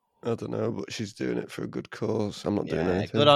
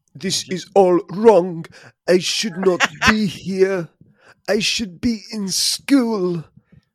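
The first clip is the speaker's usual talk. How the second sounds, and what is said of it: Imitates another person's voice. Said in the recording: “Your impression of Greta. ... That's a good impression,”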